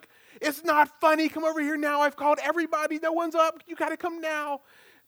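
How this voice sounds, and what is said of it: Panicked, frantic voice. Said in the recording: “in her panicked voice”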